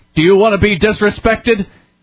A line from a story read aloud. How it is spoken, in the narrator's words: He yelled at me ironically